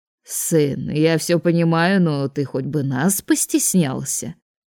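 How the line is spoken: Mocking, father. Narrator (Russian): насмешливо произнес его отец

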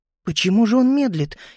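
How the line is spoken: Frightened whisper. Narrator (Russian): испуганно шептала Амилия

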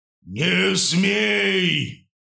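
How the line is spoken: Deafening thunderous voice. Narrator (Russian): Прогремел голос Бога, буквально оглушая меня

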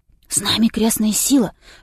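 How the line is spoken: Whisper. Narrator (Russian): шепнул Илья

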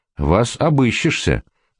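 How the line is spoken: Angry. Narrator (Russian): сердито сказал помощник дежурного по академии

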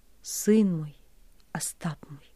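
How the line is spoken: Quiet, dejected. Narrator (Russian): тихо, понурив голову, говорил он

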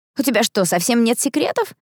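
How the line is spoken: Laughing. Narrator (Russian): рассмеялся Эштон

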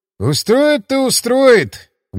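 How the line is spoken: Skeptical snort. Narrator (Russian): хмыкнул Климов

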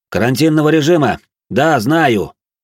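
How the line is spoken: Loud. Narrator (Russian): громко произнес я

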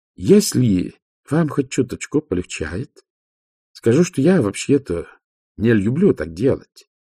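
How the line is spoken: Plain. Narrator (Russian): сказала вампирша

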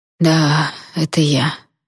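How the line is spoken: Hoarse reply. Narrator (Russian): хрипло отозвался хранитель

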